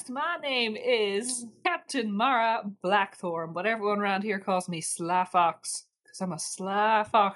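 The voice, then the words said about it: Put-on character accent. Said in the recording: “I love your accents.”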